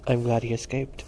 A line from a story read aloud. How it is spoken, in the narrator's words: Stephen had said with a laugh